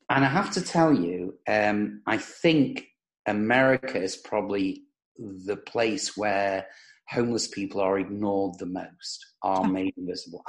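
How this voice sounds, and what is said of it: British accent. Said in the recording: “I may speak with a British accent”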